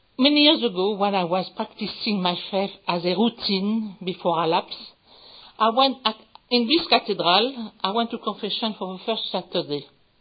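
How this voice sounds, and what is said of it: French accent. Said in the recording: “my accent, I'm French.”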